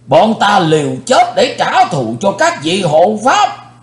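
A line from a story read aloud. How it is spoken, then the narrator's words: Crowd shouting. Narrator (Vietnamese): Nhưng quần hùng đã quát lên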